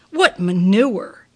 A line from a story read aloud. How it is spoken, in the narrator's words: She spat